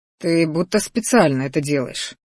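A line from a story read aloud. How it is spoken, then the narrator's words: Husky with desire. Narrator (Russian): произнес слегка охрипшим от желания голосом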